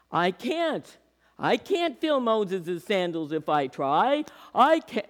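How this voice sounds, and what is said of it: Put-on Jewish accent. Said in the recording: “it's, you know, a little Jewish thing. ... I know how that accent works.”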